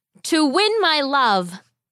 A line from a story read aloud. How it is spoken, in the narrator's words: the boy shouted back